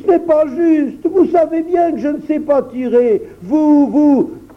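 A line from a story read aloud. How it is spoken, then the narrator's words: Exclaimed. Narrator (French): s'écria-t-il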